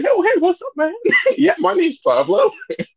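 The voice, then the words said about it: Imitates another person's voice. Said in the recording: “my voice is actually higher than what you just tried to do.”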